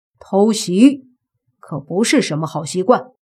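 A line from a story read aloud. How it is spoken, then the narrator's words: Cold voice. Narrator (Chinese): 莫凡冷声说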